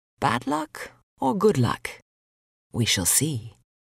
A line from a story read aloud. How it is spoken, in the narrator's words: the farmer just quietly replied